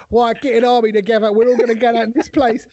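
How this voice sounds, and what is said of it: Put-on London accent. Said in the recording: “the London accent”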